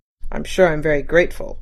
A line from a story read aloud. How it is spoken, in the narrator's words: muttered Mr